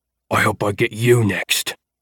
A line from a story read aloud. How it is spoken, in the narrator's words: Amit growled